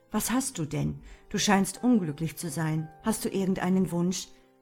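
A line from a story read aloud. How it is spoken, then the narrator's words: Plain. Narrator (German): antwortete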